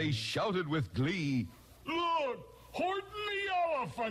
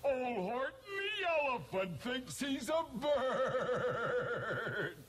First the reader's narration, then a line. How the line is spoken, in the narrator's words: They laughed, and they laughed